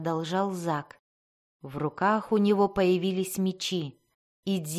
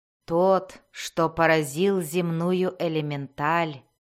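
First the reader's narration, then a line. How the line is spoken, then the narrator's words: Mocking smirk. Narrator (Russian): насмешливо ухмыльнулся Зак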